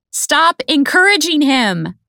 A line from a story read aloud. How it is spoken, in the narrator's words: I yell back